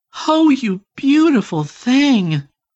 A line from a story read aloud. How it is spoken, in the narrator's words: exclaimed